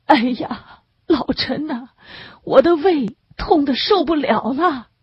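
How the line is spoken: Wailing in pain. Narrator (Chinese): 李汉祖哀哀地哭出声来

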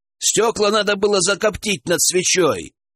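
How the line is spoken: Shouted downward. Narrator (Russian): крикнул Александр вниз

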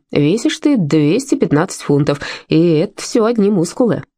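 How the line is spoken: Doctor's chuckle. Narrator (Russian): доктор хохотнул

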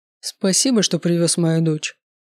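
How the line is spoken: Dry. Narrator (Russian): сухо сказал он

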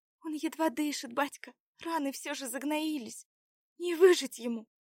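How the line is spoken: Sobbing. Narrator (Russian): Всхлипнула девушка

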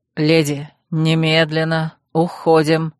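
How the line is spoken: Through clenched teeth. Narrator (Russian): Сжав зубы, процедил Урсул

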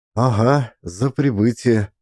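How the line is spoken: Bewildered smiling. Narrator (Russian): Растерянно улыбался он

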